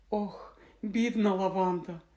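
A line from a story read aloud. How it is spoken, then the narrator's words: Sigh. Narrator (Ukrainian): зітхнула Герміона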